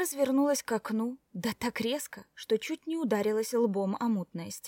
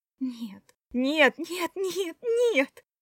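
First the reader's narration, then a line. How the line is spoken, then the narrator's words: Moaning. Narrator (Russian): застонала Кора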